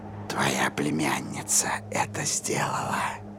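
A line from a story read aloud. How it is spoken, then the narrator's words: Whispering creature. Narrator (Russian): прошептало существо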